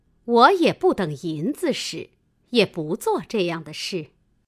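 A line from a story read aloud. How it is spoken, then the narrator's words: Laughing. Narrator (Chinese): 凤姐听说，笑道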